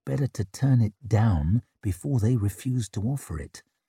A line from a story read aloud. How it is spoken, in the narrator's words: murmured Durand, lips carefully pursed